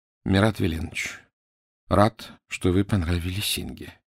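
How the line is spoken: Quiet. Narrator (Russian): тихо сказал

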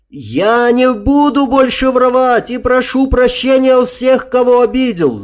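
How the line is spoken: Wailing shout. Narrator (Russian): завопил солдат

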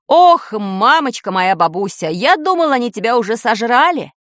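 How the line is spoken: Relieved exclamation. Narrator (Russian): С облегчением воскликнул баб-ягун

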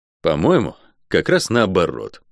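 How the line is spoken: Snorting. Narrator (Russian): хмыкнул я

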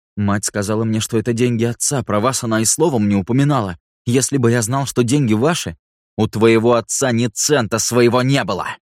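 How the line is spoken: Barking. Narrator (Russian): рявкнул Рико

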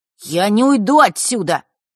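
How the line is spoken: Suddenly loud declaration. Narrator (Russian): неожиданно громко заявил он

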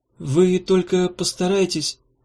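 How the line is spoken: Timid farewell. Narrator (Russian): робко начала на прощание

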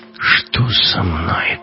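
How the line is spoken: Mutter. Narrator (Russian): пробормотал Гитлер

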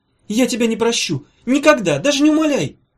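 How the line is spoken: Hurt shouting. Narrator (Russian): кричал ей вслед обиженный гений

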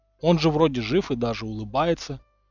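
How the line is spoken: Sigh. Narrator (Russian): Дамблдор вздохнул

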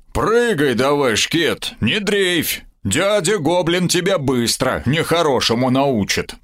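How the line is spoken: Deep bass voice. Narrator (Russian): пробасил Сомов

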